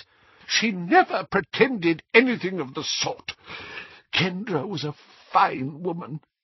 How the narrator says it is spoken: whispered Doge miserably

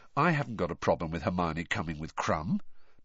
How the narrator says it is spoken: said Harry quietly

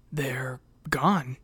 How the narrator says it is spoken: breathed

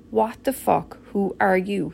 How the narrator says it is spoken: he said

